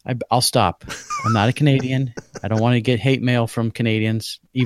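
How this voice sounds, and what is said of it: Usual voice. Nothing is said of it.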